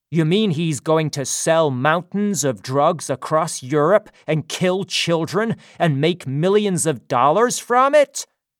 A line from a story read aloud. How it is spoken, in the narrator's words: shouted Strelsky